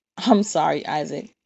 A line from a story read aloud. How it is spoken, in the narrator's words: Zora replies with laughter